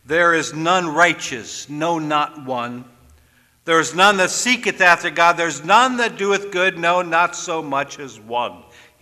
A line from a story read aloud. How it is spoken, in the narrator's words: he said